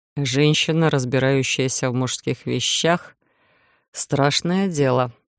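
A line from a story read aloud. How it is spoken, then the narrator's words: Barely audible mutter. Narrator (Russian): едва слышно пробормотал стоящий рядом Иден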